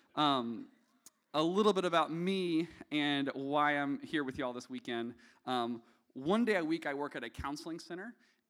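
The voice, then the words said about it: Southern American accent. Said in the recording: “You'll also tell that I'm not from around here because of my accent. ... my thin Southern blood”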